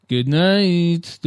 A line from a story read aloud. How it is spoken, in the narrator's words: in a dry tone, addressed to the floor